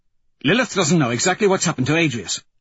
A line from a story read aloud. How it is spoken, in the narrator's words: Cassius says quickly